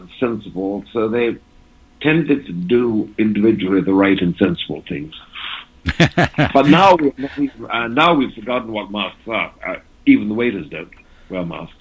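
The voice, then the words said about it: English-tinged accent, not Southern. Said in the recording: “your accent does not sound like someone from South Carolina ... My mother was English ... it was the English part that showed”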